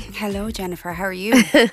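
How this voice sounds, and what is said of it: Seductive podcast voice. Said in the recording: “I'm using my podcast voice today... It sounds seductive.”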